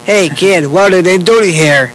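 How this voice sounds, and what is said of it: Animated cartoon character voice. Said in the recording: “Tell them who you do the voice. ... good head. ... Tell them so they can hear it. ... So, you did the voice, too?”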